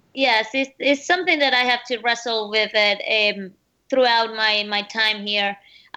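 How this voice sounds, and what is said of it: Speaks with an accent. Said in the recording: “you have an accent”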